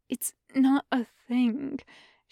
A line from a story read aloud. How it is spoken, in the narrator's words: Shen Wei murmurs almost petulantly against Yunlan's skin